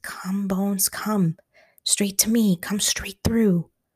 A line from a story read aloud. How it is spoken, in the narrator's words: Stanley bit his lip and breathed